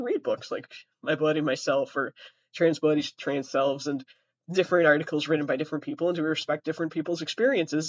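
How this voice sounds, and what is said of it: Sick, rough voice. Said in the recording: “Sorry for my voice. Sorry for the coughing. ... COVID is here.”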